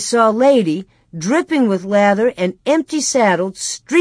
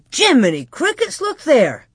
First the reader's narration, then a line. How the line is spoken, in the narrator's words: he exclaimed